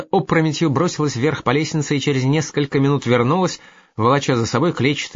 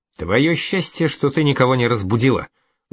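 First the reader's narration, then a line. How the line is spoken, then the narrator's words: Angry. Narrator (Russian): зло сказал де Бомон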